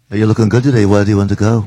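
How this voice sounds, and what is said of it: Put-on Liverpool English accent. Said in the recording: “I couldn't do an Australian accent, so I just did a Beatle accent.”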